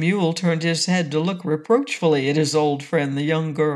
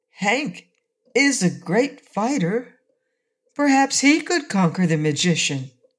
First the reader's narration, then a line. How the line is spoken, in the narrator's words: Betsy said in a hesitating voice